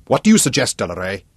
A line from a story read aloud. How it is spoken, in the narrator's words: the commander barked irritably, just as edgy and tense